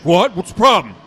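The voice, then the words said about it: Imitates another person's voice. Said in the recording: “that was a good impression. ... That was pretty accurate. ... The attitude.”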